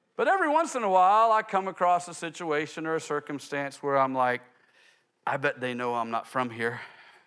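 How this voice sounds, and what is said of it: Texas drawl. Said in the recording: “my Texas drawl”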